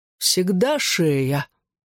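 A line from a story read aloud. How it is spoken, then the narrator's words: Displeased groan. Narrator (Russian): Недовольный увиденным, он застонал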